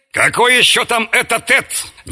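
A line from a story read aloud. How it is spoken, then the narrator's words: Displeased grumble. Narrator (Russian): недовольно заворчал Мраз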